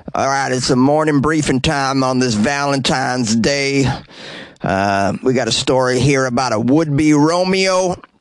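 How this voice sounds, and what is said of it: Imitates a gruff sheriff's voice. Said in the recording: “Grady Judge chews skull and spits in a cup during his press conferences, right? So I'm going to do an impression of Sheriff Grady doing the press conference here.”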